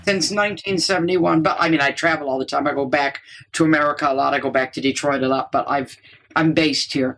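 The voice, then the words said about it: American Midwestern accent. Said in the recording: “your accent is still coming out swinging out of the Midwest”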